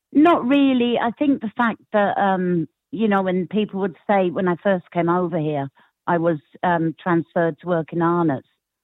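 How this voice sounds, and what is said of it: English accent. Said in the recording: “where's the English accent from?”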